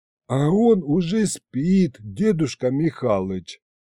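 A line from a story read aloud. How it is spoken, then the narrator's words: Gentle, affectionate. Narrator (Russian): ласково сказал Аристофан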